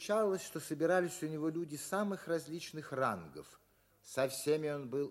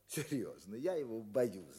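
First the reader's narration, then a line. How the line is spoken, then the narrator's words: Laughing, delighted. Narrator (Russian): говорил он, смеясь, как бы радуясь этой боязни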